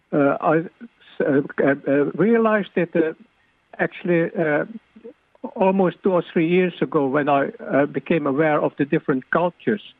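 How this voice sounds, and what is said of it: Dutch-Indonesian accent. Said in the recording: “You can hear from my accent that I'm Dutch-Indonesian”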